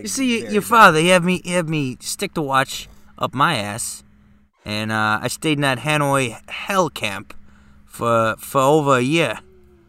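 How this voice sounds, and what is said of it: Imitates another person's voice, New York accent. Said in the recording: “Is that your Christopher Walken? ... Also bad. ... Why do you have a New York accent?”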